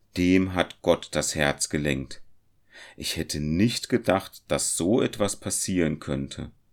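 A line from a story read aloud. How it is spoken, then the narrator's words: Hunter calling. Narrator (German): rief der Jäger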